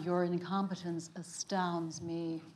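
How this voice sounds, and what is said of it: Danuvia character voice. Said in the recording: “do a bit of that character voice ... I play Danuvia”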